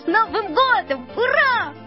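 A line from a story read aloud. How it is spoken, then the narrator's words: Relieved shout. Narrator (Russian): Мишка уже считал, что все кончилось благополучно, и закричал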